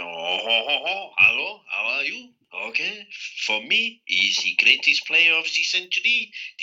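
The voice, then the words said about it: Put-on French accent. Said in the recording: “you're all supposed to talk in a French accent”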